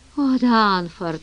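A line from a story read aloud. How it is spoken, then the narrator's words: Sighing. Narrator (Russian): вздохнула она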